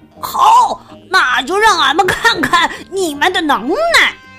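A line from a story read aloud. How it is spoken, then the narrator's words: Roaring. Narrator (Chinese): 最小的海盗咆哮道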